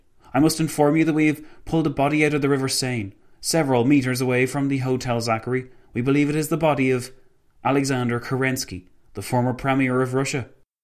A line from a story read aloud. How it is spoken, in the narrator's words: the policeman exclaimed